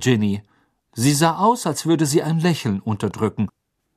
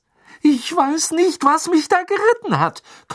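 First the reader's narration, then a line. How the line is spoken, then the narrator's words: Gasping. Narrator (German): keuchte Ron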